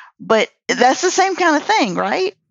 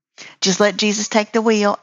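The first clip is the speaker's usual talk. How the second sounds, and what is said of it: Exaggerated put-on Southern accent. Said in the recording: “I'm saying that with the extra on Southern accent because it's funnier that way”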